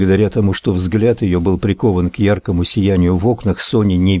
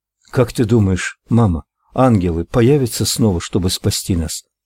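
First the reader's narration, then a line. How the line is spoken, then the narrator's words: Child's slightly trembling voice. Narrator (Russian): Слегка дрожащим голосом поинтересовался малыш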